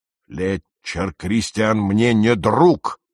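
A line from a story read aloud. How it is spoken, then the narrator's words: Roaring. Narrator (Russian): проревел мистер Фрейер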